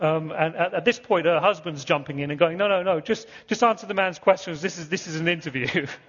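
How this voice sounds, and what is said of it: Usual voice. Nothing is said of it.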